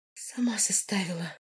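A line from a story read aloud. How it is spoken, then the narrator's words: Whispered. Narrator (Russian): прошептала я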